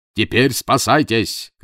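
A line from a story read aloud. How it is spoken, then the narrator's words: Shouting. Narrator (Russian): крикнул лорд Джон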